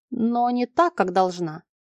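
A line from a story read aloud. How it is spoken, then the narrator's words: Wry snort. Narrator (Russian): он хмыкнул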